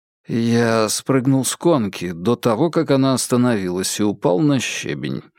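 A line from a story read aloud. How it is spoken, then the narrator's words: Muttering. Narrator (Russian): пробормотал Джеймс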